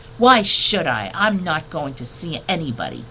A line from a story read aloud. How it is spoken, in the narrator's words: Bert Brisbane growled